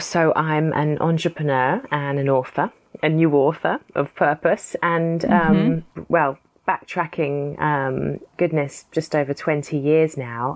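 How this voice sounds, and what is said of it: Speaks with a noticeable accent. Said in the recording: “you happen to also sound just delightful. Like, I'm such a sucker for your accent.”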